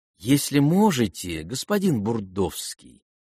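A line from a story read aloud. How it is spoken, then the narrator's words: Quiet sweet interruption. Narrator (Russian): тихо и сладко остановил его Гаврил Арделеонович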